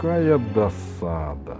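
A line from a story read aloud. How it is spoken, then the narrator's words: Sigh. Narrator (Russian): вздохнул доктор Панацельсиус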